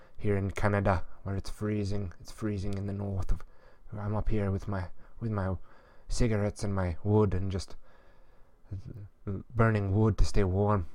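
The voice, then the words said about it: Imitates another person's voice. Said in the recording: “I don't have the graspy enough voice ... then I can do the Alan Watt impersonation”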